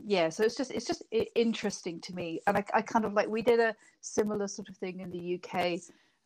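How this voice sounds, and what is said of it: British accent. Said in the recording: “you can probably hear from my accent, I'm not a New Zealander. I was from Britain.”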